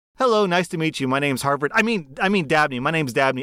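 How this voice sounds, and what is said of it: Snooty Ivy League graduate voice. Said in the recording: “my impersonation of someone who went to Harvard”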